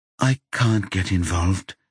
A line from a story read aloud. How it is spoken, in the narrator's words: she says quietly